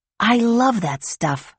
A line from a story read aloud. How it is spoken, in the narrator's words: Grace said in a whisper, as if it were a secret